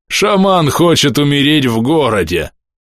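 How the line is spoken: Guard chuckling. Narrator (Russian): Страж хохотнул

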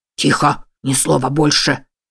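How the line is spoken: Growled command. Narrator (Russian): рыкнул на нее фермер

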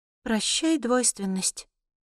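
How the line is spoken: Muttering under breath. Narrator (Russian): бормочу я себе под нос

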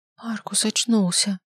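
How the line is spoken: Forced out. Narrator (Russian): выдавил я

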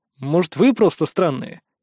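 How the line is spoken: Snort. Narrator (Russian): Я хмыкнул

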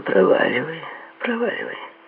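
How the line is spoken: Gentle female voice. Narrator (Russian): мягко сказала она

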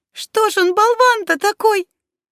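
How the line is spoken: Sobbing. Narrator (Russian): всхлипнула она

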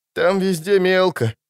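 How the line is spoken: Breathed out. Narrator (Russian): выдохнул паромщик

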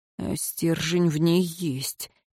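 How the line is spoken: Soft. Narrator (Russian): тихо произнес смотритель

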